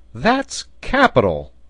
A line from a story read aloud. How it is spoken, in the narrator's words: cried the sailor